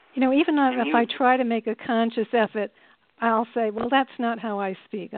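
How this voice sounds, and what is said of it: Rhode Island accent. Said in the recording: “I think it's a beautiful accent. It's like music to my ears.”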